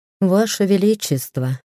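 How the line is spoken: Sighing. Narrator (Russian): вздохнул королевский маг

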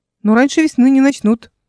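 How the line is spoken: Reassuring, confident. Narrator (Russian): успокоила Эл своим обычным уверенным тоном

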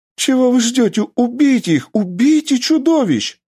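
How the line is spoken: Woman screaming. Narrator (Russian): закричала женщина

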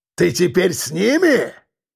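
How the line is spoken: Roaring. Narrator (Russian): взревел кирпич

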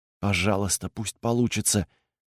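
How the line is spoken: Whisper under breath. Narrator (Russian): прошептал он себе под нос

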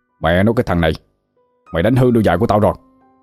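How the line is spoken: Angry shouting. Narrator (Vietnamese): ông ta liền tức giận quát tháo

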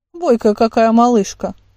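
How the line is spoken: Middle-aged woman's amused snort. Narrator (Russian): хмыкнула третья, средних лет женщина

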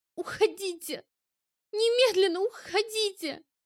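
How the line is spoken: Tearful strained words. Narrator (Russian): Сквозь слезы выдавила Ари

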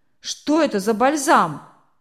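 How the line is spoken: Gruff question. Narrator (Russian): грубо спросил мельник

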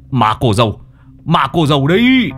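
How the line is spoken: Old man shouting. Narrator (Vietnamese): Lão lập tức hét lên

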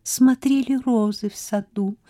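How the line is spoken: Tender cooing. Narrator (Russian): нежно проворковала

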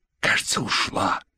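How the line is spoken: Still whispering. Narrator (Russian): все еще шепотом сказал Саид

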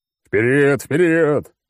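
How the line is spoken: Roaring. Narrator (Russian): взревел клоун

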